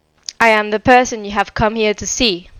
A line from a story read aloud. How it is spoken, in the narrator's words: she said